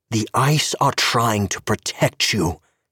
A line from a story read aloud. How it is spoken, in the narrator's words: Alistair said fiercely